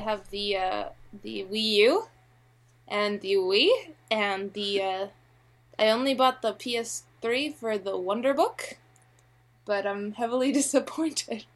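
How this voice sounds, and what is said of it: Slight Canadian accent. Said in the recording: “Is that a Canadian accent? ... You do say a boot a little bit.”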